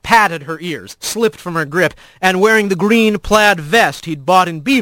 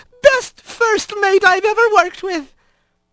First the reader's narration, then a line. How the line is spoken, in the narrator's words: Mavis sobbing